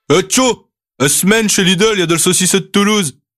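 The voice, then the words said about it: Put-on northern French accent. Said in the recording (French): “avec un accent du Nord”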